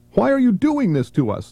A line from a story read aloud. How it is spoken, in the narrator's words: Laura shrieked